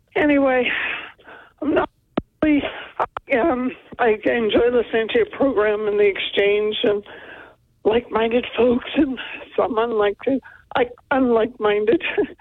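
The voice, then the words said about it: Voice cutting in and out. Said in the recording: “apologize for my voice in advance. Goes in and out.”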